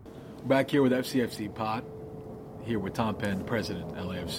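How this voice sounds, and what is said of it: Put-on radio announcer voice. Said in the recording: “The radio voice is up. I'm trying real hard ... That was the Don Draper voice.”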